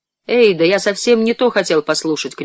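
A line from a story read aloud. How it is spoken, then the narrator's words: Shouted. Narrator (Russian): крикнул он Уолтеру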